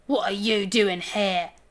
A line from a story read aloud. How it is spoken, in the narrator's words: spat Gravelbeard, wriggling like an eel in his bonds